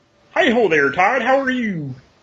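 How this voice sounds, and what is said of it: Kermit the Frog impression. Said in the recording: “my Kermit impression ... my poor Kermit impression ... especially the one of Kermit the Frog. That was exceptional.”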